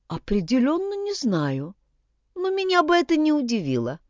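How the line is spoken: Plain. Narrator (Russian): сказала Вигдис

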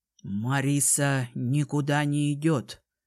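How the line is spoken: Plain. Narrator (Russian): сказал он

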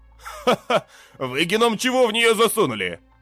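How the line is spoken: Laughing. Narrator (Russian): рассмеялся Бульдог

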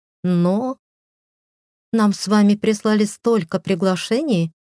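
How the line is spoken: Even tone. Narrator (Russian): ровным тоном сказала Люси

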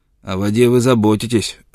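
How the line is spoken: Snapping retort. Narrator (Russian): огрызнулся он

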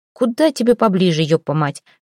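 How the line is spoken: Driver barking. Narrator (Russian): рявкнул на командира водитель

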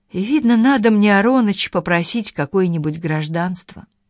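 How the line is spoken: Said with a sigh. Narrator (Russian): Наташа сказала, вздохнув

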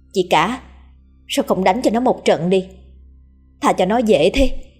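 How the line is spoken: Resentful woman speaking. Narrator (Vietnamese): bà ba hậm hực nói

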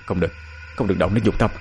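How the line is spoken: Stammering. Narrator (Vietnamese): Miệng hắn lắp bắp

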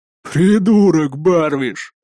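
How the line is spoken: Laughing, big man. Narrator (Russian): хохотнул здоровяк

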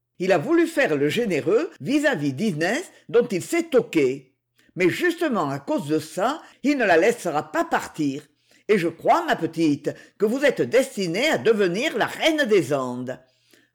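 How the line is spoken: Cruel sneering laugh. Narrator (French): ajouta-t-elle en ricanant méchamment

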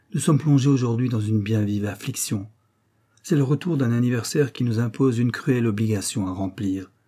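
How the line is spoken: Said with long sigh. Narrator (French): dit Égée en poussant un long soupir

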